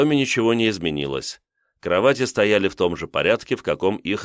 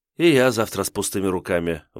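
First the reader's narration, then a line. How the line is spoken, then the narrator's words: Sighing. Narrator (Russian): вздохнула Ольга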